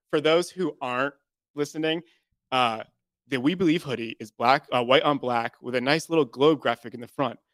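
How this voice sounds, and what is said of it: Polished radio announcer voice. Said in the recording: “I loved your like radio voice. ... that was like a ... I've never met before.”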